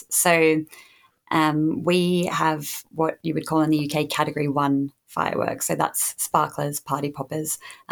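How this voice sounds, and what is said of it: Australian accent. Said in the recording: “keen eared listeners uh, might have gleaned my accent already... I did not grow up in the UK, I grew up in Australia”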